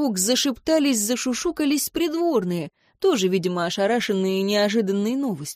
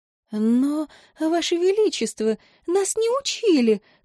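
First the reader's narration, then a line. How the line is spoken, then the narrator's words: Timid bleating. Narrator (Russian): робко проблеяла какая-то дама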